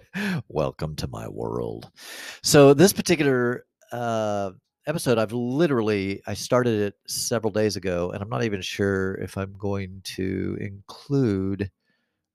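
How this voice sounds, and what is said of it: Slightly nasal voice. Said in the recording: “I sound a little nasally right now”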